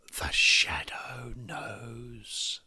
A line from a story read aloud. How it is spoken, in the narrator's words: she hissed